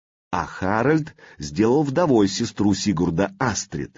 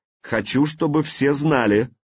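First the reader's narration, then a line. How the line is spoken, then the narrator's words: Loud, clear public address. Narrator (Russian): произнес он громко и отчетливо, так, чтобы его слышали все, кто собрался на рыночной площади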